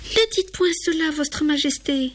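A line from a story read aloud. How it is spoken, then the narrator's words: Distressed exclamation. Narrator (French): s'écrie Gabrielle, désolée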